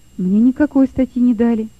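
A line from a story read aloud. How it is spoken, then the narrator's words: Quiet reply. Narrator (Russian): тихо ответил Лёва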